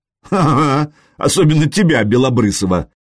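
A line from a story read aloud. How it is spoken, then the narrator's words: Giggling. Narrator (Russian): Машек хихикнул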